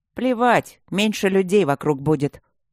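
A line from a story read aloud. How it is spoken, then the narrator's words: Sharp reply. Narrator (Russian): ответил Макс резко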